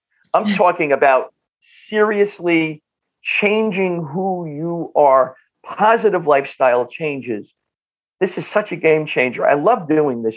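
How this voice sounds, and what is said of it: North Jersey accent. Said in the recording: “my North Jersey accent”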